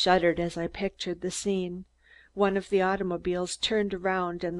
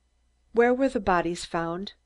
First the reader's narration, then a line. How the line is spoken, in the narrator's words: I asked, my voice trembling